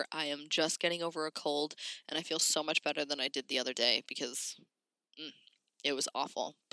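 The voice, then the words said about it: Slightly raspy voice with a cold. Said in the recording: “my voice is a little raspy,... sniffles or coughs”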